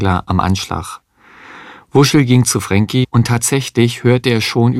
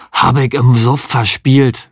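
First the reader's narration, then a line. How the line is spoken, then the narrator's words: Hoarse. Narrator (German): sagte Frankie heiser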